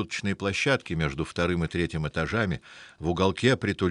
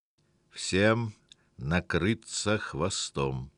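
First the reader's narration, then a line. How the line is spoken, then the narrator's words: Through teeth, lighting cigarette. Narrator (Russian): процедил, прикуривая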